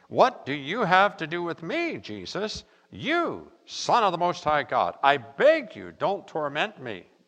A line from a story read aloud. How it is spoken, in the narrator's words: cried out, said in a loud voice